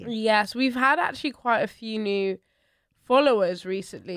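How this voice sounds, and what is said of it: Nasal, congested voice. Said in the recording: “I'm a bit under the weather ... I sound nasally ... Nasal”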